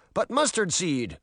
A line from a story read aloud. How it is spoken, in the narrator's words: one of the guards cried